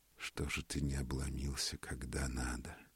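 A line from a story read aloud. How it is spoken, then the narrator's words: Quiet, to himself. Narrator (Russian): тихо для себя молвил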